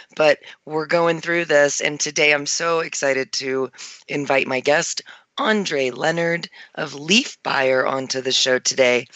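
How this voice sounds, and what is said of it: Hoarse, fading voice. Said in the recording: “you can probably hear I'm losing my voice ... losing my voice a little bit ... without going completely mute”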